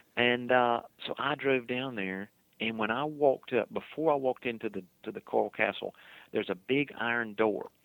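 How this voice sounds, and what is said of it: Southern swamp accent. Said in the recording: “That's where I get this swamp accent from, Okefenokee Swamp.”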